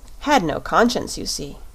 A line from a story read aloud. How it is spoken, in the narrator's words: replied the shaggy man with a sigh